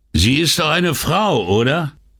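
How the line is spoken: Calling out triumphantly. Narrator (German): rief Bovo triumphierend

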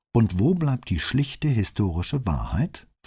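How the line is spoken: Plain question. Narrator (German): fragte Brunetti

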